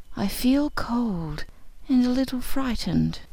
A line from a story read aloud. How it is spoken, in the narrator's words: she whispered